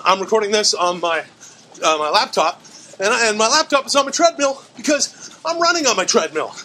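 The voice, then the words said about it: Out of breath, breathless speech. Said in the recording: “the horrible sound quality and why I'm out of breath”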